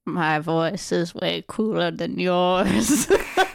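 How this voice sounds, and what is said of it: Imitates another person's voice, weak impression. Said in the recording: “Doing an impression of Morgan Freeman... See, it wasn't a good impression.”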